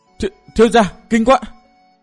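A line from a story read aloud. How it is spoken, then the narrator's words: Terrified young woman's cry. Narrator (Vietnamese): Cô nàng kinh hãi kêu lên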